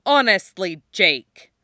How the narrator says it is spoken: father snaps

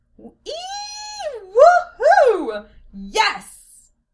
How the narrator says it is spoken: a resounding squeal and shout

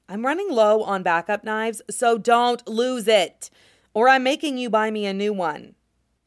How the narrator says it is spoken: Zhang Qinghua says firmly

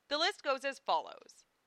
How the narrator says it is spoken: said Lena

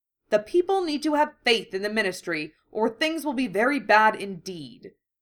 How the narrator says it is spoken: Scrimjaw snapped

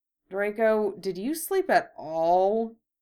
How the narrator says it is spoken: Harry asked hesitantly

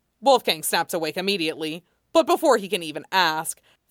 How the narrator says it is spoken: Felix exclaims

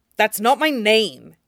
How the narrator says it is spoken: he snaps

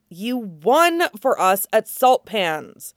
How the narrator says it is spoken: Arya says fiercely

